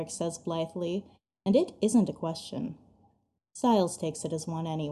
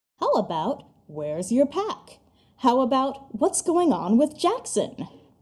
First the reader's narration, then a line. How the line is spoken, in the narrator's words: Styles ... his voice rising